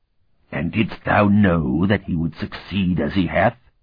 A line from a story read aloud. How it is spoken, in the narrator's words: Otha sneered